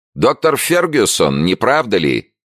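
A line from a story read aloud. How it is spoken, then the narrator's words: Lieutenant shouting. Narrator (Russian): крикнул лейтенант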